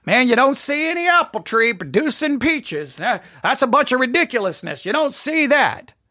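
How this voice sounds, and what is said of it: Put-on Southern Texas accent. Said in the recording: “in the South ... I live in Texas, so if I'm using that accent, I'm not doing it necessarily to be completely mocking ... That's how it sounds.”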